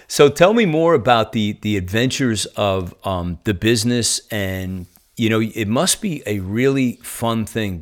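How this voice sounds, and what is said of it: Northeastern American accent. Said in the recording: “I am hanging on to my Northeastern accent at all costs”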